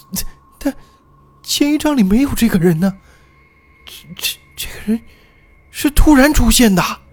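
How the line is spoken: Near tears. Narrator (Chinese): 小谢几乎是带着哭腔说出了

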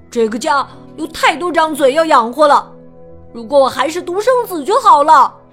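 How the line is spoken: Loud shout. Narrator (Chinese): 他大声叫道

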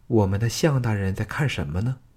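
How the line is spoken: Tender, soft. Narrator (Chinese): 季嫣然深情地柔声说

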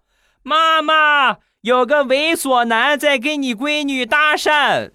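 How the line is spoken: Sudden loud shout. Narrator (Chinese): 这小姑娘突然大声的喊道

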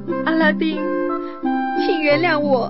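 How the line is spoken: Crying. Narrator (Chinese): 公主哭着说

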